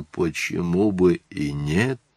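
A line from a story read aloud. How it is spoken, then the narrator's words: Smiling whisper. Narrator (Russian): Я, улыбаясь, прошептал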